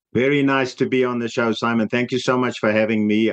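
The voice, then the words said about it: South African accent. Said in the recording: “a South African accent ... his accent is you know, even heavier than mine”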